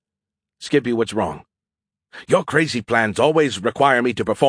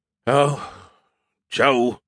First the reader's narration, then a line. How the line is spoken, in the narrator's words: he sighed